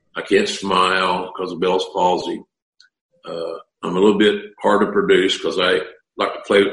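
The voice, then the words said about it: Southern American accent. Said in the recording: “I got a southern accent.”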